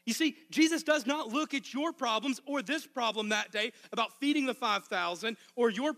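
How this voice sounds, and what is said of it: Arkansas Southern accent. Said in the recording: “I'm from Arkansas ... my accent was worse than usual ... when I go home to visit my family. I fall back in those old patterns”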